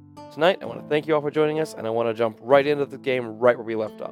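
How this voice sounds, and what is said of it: Rough voice from a cold. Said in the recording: “I'm recovering from a bit of a cold, so my voice is a little more rough than usual.”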